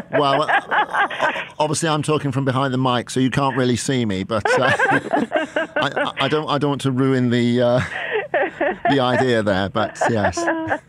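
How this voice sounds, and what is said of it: British accent. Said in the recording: “I love your accent ... I still have the accent ... a British accent”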